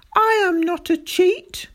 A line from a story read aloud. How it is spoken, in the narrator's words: a sort of blind fury took hold of me, and I shouted back at him